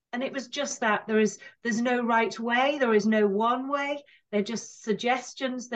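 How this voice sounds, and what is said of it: Speaks with a noticeable accent. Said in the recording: “lovely accent, because I enjoy your accent”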